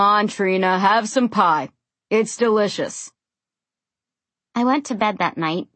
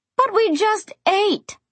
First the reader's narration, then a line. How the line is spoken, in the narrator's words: my mother cried